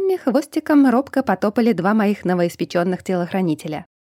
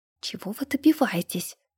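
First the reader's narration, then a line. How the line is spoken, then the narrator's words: Quiet hiss. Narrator (Russian): тихо прошипела я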